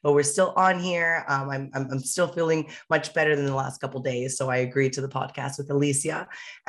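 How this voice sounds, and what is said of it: Raspy, partly lost voice. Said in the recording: “please pardon my voice, everybody, as you guys can hear, post show, I did lose my voice ... my raspy voice”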